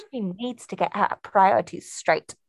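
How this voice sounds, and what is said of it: Put-on English accent. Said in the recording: “You like my English accent? ... Yeah, it's really good. It's really good.”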